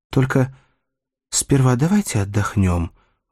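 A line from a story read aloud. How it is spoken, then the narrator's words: Timid request. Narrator (Russian): робко попросила Нина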